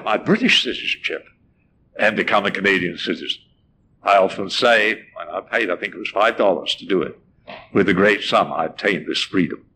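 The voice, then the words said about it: British accent. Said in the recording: “you still talk with that funny accent ... Vestiges of my Britishness are still there”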